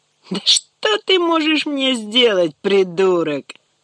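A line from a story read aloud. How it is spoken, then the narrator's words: Laughing. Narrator (Russian): рассмеялся Костик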